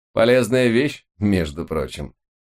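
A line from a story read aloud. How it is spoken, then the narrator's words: Mocking snort. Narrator (Russian): с издевкой хмыкнул он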